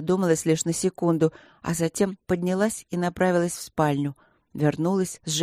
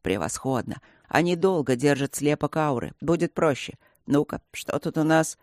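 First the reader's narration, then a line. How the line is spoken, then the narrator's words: Satisfied grunt. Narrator (Russian): Он удовлетворенно хмыкнул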